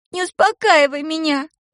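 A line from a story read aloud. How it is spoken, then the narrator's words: Sobbing. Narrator (Russian): прорыдала она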